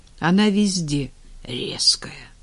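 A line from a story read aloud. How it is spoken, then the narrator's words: Weary. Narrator (Russian): устало отозвался Женя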